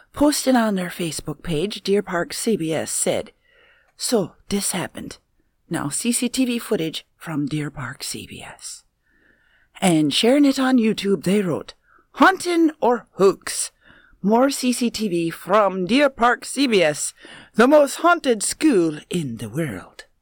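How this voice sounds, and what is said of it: Put-on Irish accent. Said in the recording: “that suits you. You need to spend your entire life talking with an Irish accent. ... Spot on.”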